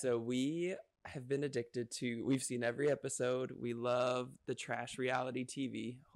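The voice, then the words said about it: Strained, failing voice. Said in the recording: “I was losing my voice.”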